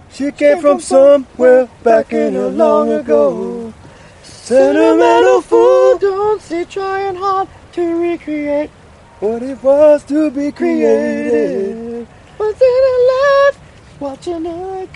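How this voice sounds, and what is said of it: Sung impression of another singer's voice. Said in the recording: “a shockingly beautiful voice. ... a spot on Michael McDonald impersonation.”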